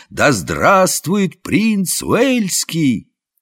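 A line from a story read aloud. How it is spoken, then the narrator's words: Crowd shouting joyfully. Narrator (Russian): как радостно толпа закричала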